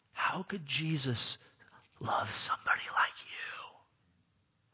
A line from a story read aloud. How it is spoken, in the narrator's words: He likes to whisper